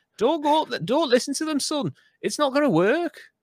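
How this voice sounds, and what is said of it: Put-on Lancashire accent. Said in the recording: “I'm doing a Lancashire accent now.”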